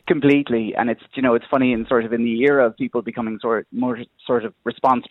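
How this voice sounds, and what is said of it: Irish accent. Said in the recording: “your Irish accent”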